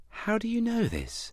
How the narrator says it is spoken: asked Adam gently

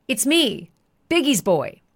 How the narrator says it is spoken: D-Rock called out to Suge saying

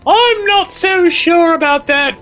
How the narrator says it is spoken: Robbie snapped back

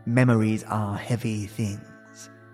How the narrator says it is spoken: he said gently

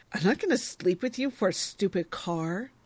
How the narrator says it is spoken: She ... cries

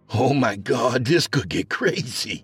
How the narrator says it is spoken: Owen chuckled

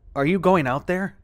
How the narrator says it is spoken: asked Sam

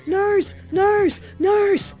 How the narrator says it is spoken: yelling

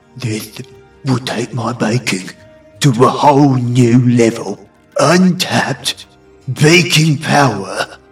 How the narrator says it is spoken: Levin whispers to himself

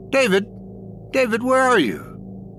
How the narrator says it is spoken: she cried out

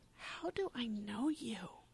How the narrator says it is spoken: whispers

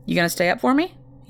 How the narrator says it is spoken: he asked

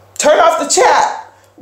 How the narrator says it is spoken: one of the other storytellers yelled

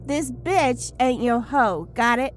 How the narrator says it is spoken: she shouted at the zombie

